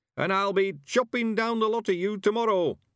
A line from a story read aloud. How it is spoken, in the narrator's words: he shouted triumphantly